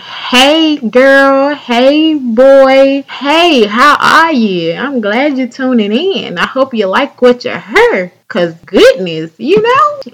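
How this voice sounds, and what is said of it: Southern American accent. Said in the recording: “I know you hear the southernness in my voice ... people from other states seem to think I got an accent”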